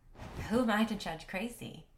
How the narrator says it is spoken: I laughed

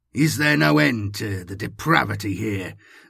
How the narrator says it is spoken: Salvatore snarled

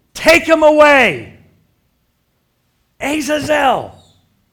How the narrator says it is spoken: the people yell

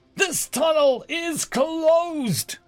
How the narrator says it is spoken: I roared out

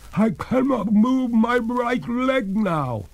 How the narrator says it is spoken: cried the ghost in despair

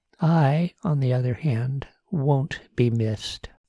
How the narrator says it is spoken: Susan said

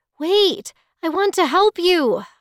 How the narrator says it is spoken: I cried

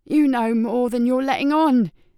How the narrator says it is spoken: Greenway snapped

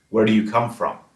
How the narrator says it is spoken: he said

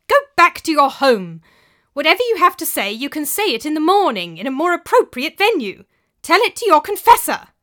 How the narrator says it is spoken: Brother Jacques was shouting through the door

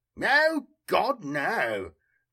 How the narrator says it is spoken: cried Foe in surprise

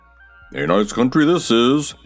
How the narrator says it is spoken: he grumbled

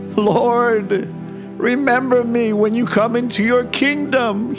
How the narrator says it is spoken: he cried to Jesus

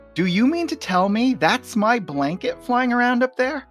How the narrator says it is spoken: he's screaming at the top of his lungs

